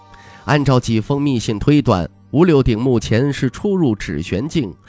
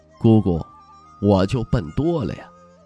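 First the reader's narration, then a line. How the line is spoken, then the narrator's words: Murmuring. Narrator (Chinese): 徐凤年喃喃道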